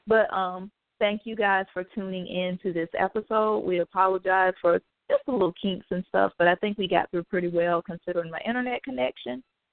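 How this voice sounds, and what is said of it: Hoarse, strained voice. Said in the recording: “I don't know why I'm losing my voice right now.”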